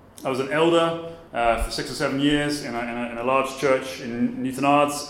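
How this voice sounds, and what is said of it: Southern English accent. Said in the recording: “as you can tell from my accent, I'm not from here. I'm from Brighton or near Brighton in Sussex, in the south of England.”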